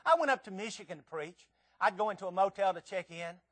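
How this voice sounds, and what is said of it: Southern US Tennessee accent. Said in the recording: “the way that this Tennessee guy talks ... Man, you have an accent ... the way that southern people talk”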